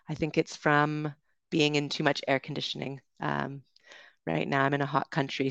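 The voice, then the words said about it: Congested, stuffy-nosed voice with dry throat. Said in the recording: “I'm sniffing a lot right now. ... I have a bit of a cold. ... my throat is a bit dry and my nose is a bit stuffed up ... congest me and my throat's very dry at the moment”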